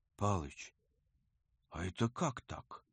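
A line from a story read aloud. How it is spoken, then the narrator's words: Whisper. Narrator (Russian): прошептал он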